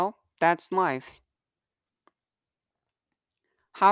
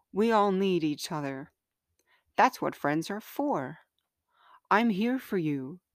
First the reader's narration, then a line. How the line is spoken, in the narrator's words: gently said